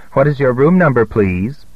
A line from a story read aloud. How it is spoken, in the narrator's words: no scream, no gasp, just a calm